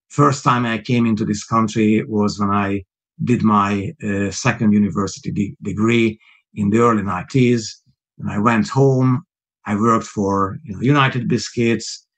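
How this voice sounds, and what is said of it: Non-native Hungarian-accented English. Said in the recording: “my accent is obviously not a British accent. It's not a native accent. ... I was born Hungarian.”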